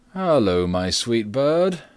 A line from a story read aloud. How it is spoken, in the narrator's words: said he, laughing merrily